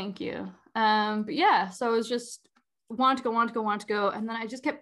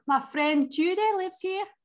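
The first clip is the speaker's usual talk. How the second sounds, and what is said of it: Put-on random accent. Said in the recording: “that's not her accent. That's a random accent.”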